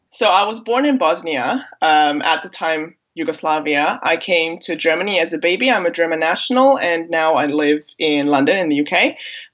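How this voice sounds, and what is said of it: American accent. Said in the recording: “My American accent”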